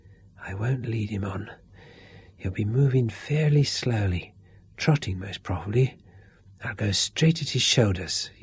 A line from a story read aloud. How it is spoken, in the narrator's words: whispered